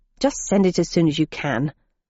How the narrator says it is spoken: I added crossly

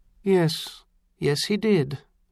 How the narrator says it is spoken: Hector agreed, but his voice was oddly distant

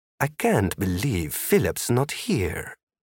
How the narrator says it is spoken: Sergio whispered

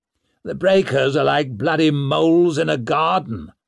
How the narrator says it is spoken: growled Lord Marshal Ruxted

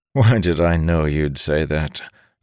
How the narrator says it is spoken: Doroth chuckled

